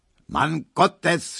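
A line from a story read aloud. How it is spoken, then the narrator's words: Shouting. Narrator (German): schrie er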